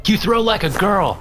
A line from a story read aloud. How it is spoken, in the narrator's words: I shouted